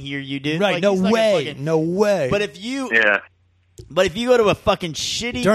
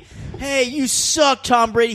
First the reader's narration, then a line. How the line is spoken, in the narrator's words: you scream